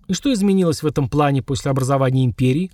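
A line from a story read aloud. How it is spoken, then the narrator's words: Snort. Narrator (Russian): хмыкнул вождь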